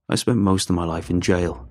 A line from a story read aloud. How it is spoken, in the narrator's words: he said